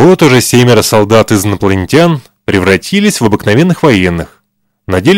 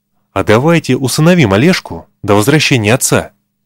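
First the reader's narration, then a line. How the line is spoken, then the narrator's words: Young recruit, speaking quietly. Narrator (Russian): Вдруг молодой необученный суббота тихо сказал товарищам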